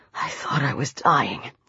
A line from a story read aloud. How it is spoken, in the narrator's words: he whispered